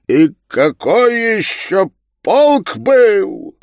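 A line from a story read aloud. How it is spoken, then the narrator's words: Pleased yet sulky exclamation. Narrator (Russian): воскликнул Илья Петрович, весьма довольный, что его так приятно пощекотали, но все еще будируя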